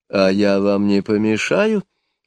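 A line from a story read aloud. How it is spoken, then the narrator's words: Timid question. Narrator (Russian): робко спросила госпожа Котар де Шарлю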